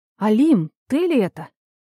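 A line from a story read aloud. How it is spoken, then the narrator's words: Exclaiming. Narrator (Russian): воскликнула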